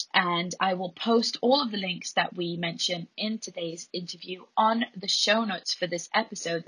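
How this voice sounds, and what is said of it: Hoarse voice. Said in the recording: “my hoarse voice”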